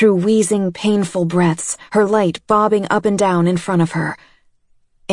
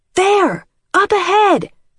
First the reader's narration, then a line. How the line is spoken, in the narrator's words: yelled